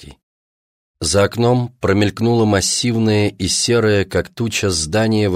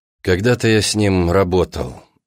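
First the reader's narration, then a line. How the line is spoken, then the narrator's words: Plain. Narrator (Russian): ответил Гронский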